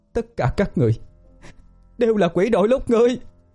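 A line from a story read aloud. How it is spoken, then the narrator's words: Crazed screaming. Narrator (Vietnamese): thét lên như điên dại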